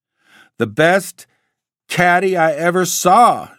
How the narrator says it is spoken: shouted Mr

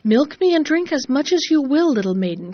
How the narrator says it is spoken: cried the cow

